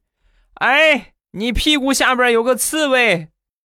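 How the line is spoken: Shouted warning. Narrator (Chinese): 我表哥冲我喊了一句

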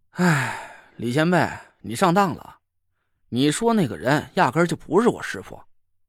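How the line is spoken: Sighing. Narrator (Chinese): 我叹了口气说

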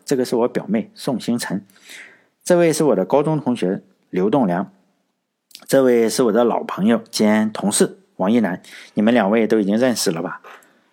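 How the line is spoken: Plain. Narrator (Chinese): 在说这句话的时候，夏女士

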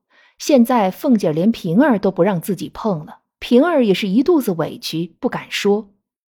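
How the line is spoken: Sighing lament. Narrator (Chinese): 贾琏则感叹着说

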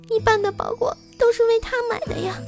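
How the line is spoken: Crying. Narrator (Chinese): 女友哭着说

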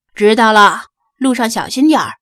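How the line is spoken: Calling out loudly. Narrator (Chinese): 扬声喊道

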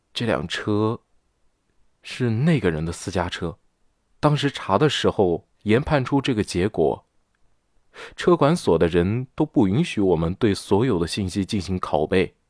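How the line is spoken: Lowered voice. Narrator (Chinese): 小孙压低声音

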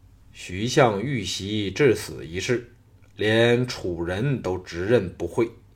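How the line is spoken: Low grave voice. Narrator (Chinese): 吕不韦大感愕然 心知不妙，沉声说

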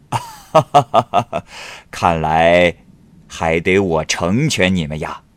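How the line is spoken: Laughing. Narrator (Chinese): 欧大人笑着说

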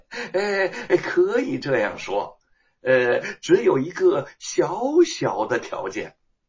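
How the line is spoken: Smiling. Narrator (Chinese): 沈田笑了笑

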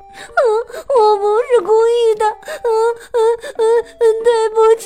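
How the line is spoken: Crying. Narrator (Chinese): 哈利特哭着说

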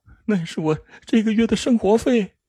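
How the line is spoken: Crying. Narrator (Chinese): 阿玉哭着说

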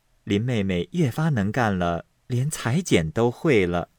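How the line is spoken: Laughing. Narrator (Chinese): 因笑道

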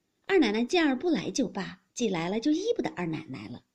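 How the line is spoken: Laughing women. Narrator (Chinese): 地下几个姬妾就先笑着说

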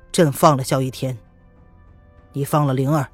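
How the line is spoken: Cold demand. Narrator (Chinese): 子儿冲着叶轩寒冷冷的质问

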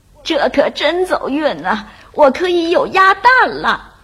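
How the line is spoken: Happy old woman exclaiming. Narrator (Chinese): 老太婆高兴的叫起来

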